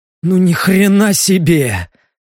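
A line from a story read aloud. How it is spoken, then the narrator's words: Bewildered exhale. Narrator (Russian): Одним словом выдохнул Леха, растерянно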